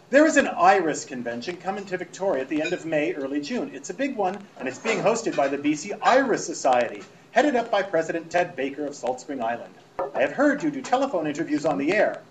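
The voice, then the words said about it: Put-on British accent. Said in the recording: “I want to read this with a British accent”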